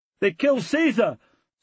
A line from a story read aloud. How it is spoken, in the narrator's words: someone shouted